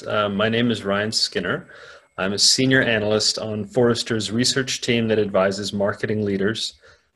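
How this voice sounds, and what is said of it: American English accent. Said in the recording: “As people can probably hear from my voice, I'm an American.”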